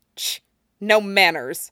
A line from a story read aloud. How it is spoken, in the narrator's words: Damien scoffed